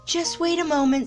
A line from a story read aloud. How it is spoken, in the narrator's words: said Tigger nervously